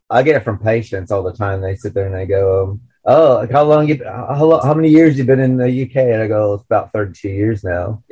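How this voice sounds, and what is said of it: American accent. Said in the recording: “you haven't lost your accent. I go, it's because I'm American.”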